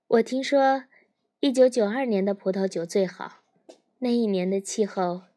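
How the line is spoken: Laughing. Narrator (Chinese): 赫顿笑起来说

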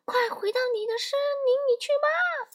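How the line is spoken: Two voices shouting together. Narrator (Chinese): 弗洛里斯蒂安和巴布罗一起叫道

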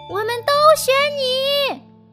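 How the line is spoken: Loud chorus shout. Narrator (Chinese): 所有动物们都会大声叫道

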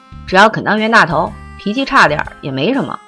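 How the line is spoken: Quick laughing speech. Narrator (Chinese): 围巾赶紧抬头笑说

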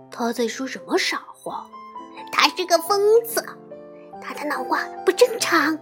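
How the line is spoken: Children muttering. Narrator (Chinese): 这群孩子像平常那样纷纷嘟囔起来

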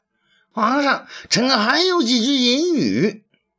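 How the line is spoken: Clamoring loudly. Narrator (Chinese): 郭婶又嚷嚷起来

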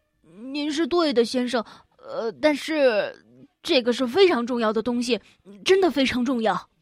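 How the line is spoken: Stammering. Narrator (Chinese): 我又结结巴巴的说

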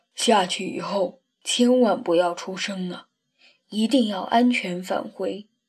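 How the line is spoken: Soft voice. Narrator (Chinese): 斗牛轻声说

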